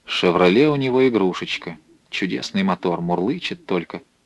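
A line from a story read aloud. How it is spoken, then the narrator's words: Thoughtful. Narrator (Russian): задумчиво сказал Ченцов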